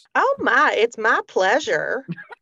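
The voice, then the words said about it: Put-on Southern country accent. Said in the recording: “I can't say my pleasure unless I'm saying it in a country accent ... That is kind of how they say it.”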